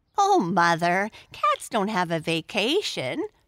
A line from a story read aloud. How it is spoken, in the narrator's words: laughed Arthur